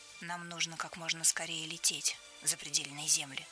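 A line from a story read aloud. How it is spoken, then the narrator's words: Plain. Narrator (Russian): сказала Мирта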